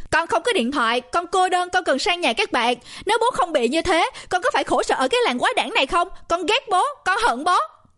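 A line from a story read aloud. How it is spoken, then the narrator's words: Screaming. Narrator (Vietnamese): Tôi gào lên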